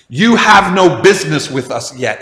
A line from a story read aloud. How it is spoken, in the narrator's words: he literally says